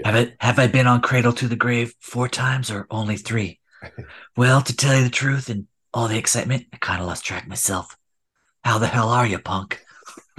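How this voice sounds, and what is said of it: Clint Eastwood impression, gravelly voice. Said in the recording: “I contemplated doing the Eastwood impersonation through the whole chat, but my throat probably would give out ... Oh, that was your Eastwood. I thought that was your Batman.”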